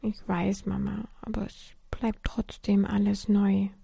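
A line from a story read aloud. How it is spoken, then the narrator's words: Murmured. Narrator (German): murmelte Lisa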